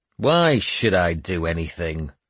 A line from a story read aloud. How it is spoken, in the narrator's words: I growled at Edith